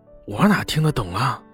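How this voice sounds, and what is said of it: Quiet, hushed reply. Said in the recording (Chinese): “小声的回应”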